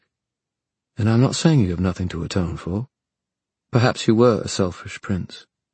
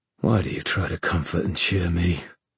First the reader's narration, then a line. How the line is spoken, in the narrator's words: Kieran said in a dry voice, as if his throat ached